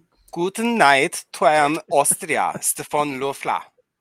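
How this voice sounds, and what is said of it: Put-on Austrian German accent. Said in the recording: “Say it in the accent”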